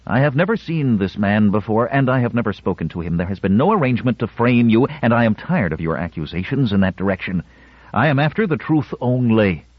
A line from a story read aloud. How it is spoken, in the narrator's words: Younce said hotly